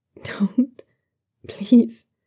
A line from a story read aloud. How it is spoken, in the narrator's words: he whimpers